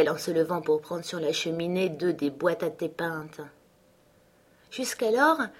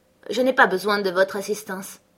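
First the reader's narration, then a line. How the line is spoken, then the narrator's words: Curt, dry. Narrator (French): dit-elle sèchement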